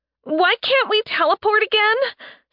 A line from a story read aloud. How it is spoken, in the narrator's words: Sen gasped out